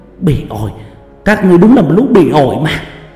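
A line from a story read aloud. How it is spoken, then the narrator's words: Tense woman shouting. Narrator (Vietnamese): Khuôn mặt của bà bắt đầu tỏ ra căng thẳng, hét lớn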